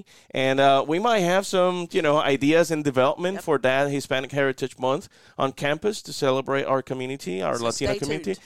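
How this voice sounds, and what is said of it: Soft Puerto Rican accent. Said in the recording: “I love your accent, too, man ... that's a soft accent, because if I go full Puerto Rican, believe me, I'm going to be rolling those R's.”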